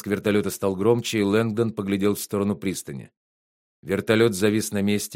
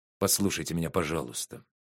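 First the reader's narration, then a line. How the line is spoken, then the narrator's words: Soft, gentle. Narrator (Russian): мягко промолвил Лэнгдон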